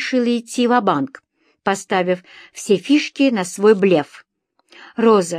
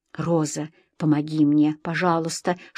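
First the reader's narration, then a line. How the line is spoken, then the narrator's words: Whispered plea. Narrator (Russian): шепотом снова попросила я ее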